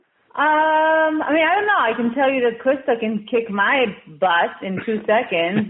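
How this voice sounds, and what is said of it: Israeli accent. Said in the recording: “I can tell you from your accent, you're Israeli, correct? ... your accent gave you away”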